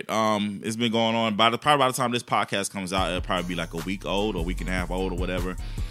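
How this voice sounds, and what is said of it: Tired, weary-sounding voice. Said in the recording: “I'm very exhausted from it ... That's why my voice sounds like this. Because I'm about over it.”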